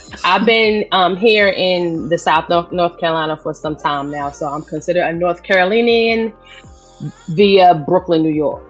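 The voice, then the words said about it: New York accent with slight Southern drawl. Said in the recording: “I still got that New York kind of, you know, my accent still comes out from time to time. And then sometimes you might hear a little, you know, a little Southern drawl”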